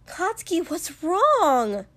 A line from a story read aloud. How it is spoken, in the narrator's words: Mina pleaded